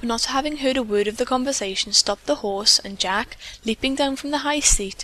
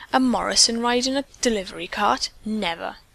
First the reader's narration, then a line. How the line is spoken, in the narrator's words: The girl drew herself up haughtily as she said in a low tone